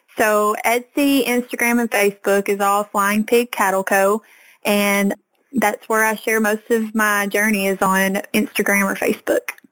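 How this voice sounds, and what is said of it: Cute regional accent. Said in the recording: “your cute little accent”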